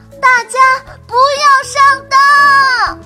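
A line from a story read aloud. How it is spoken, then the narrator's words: Shouting. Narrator (Chinese): 糖糖，你喊了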